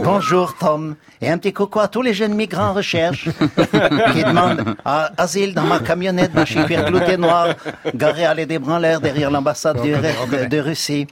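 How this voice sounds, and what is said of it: Imitates another person's voice. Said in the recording (French): “je peux vous imiter à la perfection le père Albert. Tenez, je vais vous le faire.”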